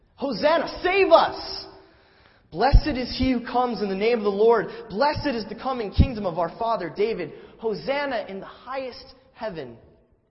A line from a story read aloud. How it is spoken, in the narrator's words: Those who went ahead and those who followed shouted